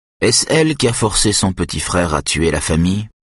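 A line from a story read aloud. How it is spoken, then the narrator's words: Hesitant. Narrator (French): dit Jens d'un ton hésitant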